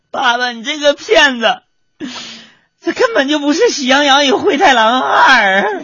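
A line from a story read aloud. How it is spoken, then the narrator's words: Little girl crying. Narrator (Chinese): 小萝莉啊哇的一声就哭出来了，然后一边哭一边跟他爸说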